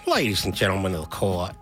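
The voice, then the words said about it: Attempted Southern lawyer accent. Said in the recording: “lawyers in a Southern movie ... I can't do that accent.”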